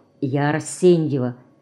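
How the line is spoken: Quiet addition. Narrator (Russian): она тихо добавила

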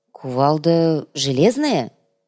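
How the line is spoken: Uncertain drawl. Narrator (Russian): неуверенно протянул циркуль, с трудом припоминая

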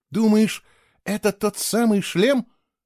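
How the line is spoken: Excited exclamation. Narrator (Russian): восторженно воскликнула Кейла

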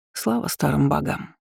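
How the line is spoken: Muttered. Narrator (Russian): пробормотала я

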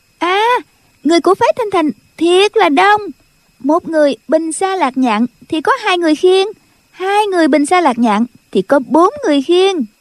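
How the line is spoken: Girl's sudden cry. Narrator (Vietnamese): Tiểu cô nương bỗng nhiên la lên

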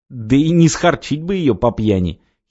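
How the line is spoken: Giggled. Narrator (Russian): хихикнул

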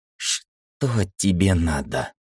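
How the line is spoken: Trembling question. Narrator (Russian): дрожащим голосом спросила Ира

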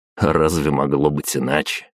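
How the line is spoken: Smirking snort. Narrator (Russian): хмыкнул

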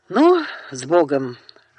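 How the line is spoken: Loud exhale. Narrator (Russian): шумно выдохнул Даниэль

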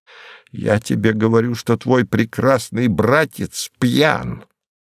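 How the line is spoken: Sharp, cold, clipped. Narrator (Russian): говорил резким, холодным, решительным тоном, чеканя слова, точно штампуя их на станке

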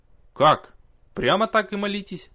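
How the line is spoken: Irritated reply. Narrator (Russian): раздраженно ответила София

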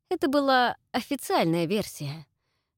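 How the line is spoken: Hinting, loud sigh. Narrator (Russian): намекнул Чак и шумно вздохнул

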